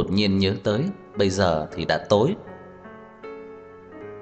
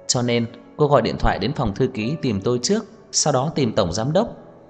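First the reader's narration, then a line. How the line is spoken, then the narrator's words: Surprised smiling speech. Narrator (Vietnamese): Đông Anh hơi sửng sốt, mỉm cười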